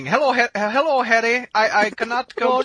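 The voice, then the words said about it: Weak put-on Indian accent. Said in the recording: “at least become like Indian or something ... You got to do the Indian much better than that ... throw the voice a little bit ... instructing the Missouri guy about how to do an Indian accent”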